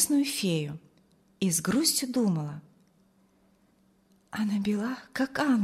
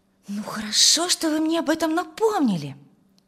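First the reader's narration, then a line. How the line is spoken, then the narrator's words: Exclaimed. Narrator (Russian): воскликнула Тамара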